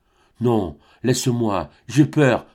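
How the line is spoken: Stammered. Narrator (French): balbutia-t-il

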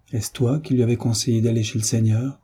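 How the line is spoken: Low muffled voice. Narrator (French): dit-il d'une voix sourde

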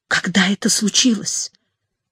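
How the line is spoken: Whispered question. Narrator (Russian): тоже шепотом спросил Мавлина

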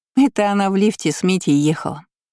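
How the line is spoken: Laughing. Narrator (Russian): засмеялась Аня

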